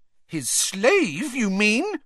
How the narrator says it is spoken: said Hermione, her voice rising shrilly

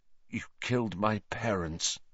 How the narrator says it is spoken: said Harry, his voice shaking slightly

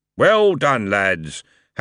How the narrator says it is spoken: Harry boomed

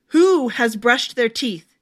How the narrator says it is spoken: She said harshly

